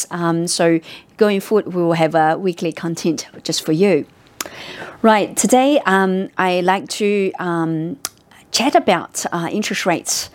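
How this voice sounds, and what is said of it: Hoarse voice, partly lost. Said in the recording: “I got sick after I returned to office, so I still sound losing my voice.”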